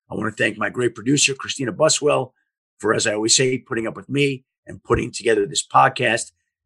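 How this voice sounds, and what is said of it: Hoarse, fading voice from a cold. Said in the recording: “putting up with me as I lose my voice. I've been sick the last 4 or 5 days. I've had a cold.”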